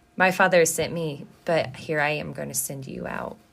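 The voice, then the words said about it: Emotional, choked-up voice. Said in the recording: “I'm getting emotional again”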